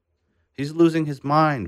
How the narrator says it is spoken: Burhan said

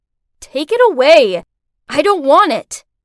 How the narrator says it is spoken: She shouted back at me

